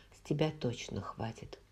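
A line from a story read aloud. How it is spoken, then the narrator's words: Low mutter. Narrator (Russian): вполголоса пробормотала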